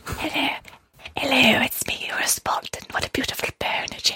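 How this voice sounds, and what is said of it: Creepy spider-like character voice. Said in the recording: “in his spider voice”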